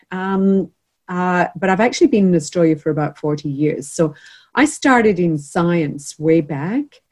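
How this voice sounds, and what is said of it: Noticeable non-Australian accent. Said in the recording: “you probably picked the accent straight away”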